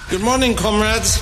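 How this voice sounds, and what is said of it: German accent. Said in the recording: “a guy that you don't really recognize coming in taking over with a German accent.”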